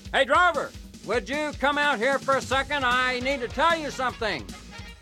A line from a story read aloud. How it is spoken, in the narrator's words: yelled